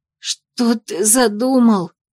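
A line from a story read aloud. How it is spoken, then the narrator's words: Hoarse rasp, dizzy and nauseous. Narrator (Russian): прохрипела я, борясь с головокружением и дурнотой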